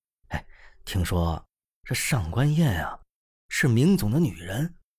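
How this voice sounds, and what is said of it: Quiet, hushed speech. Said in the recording (Chinese): “小声道”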